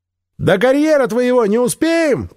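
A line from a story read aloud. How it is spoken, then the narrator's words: Shouted from above. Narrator (Russian): прокричала сверху Эви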